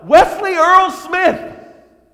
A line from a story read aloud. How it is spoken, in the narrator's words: I yelled out